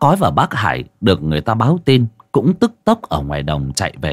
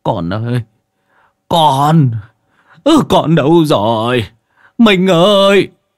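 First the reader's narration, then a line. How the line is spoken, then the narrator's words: Old man sobbing. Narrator (Vietnamese): Ông mếu máo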